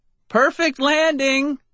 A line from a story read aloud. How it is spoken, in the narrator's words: I shouted